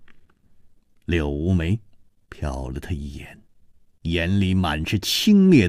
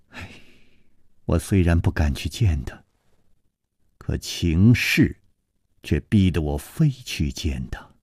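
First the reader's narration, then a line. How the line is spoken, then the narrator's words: Sighing. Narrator (Chinese): 他只是叹着气接着说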